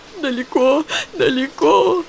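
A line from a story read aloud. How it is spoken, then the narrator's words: Choked with sobs. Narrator (Russian): Рыдания душили ее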